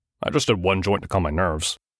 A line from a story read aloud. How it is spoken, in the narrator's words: he mumbled